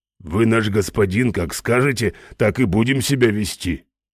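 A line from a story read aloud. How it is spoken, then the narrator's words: Low booming drone. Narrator (Russian): прогудел Ральф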